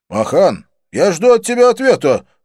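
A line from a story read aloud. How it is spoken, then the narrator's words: Barked. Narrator (Russian): рявкнул Доминик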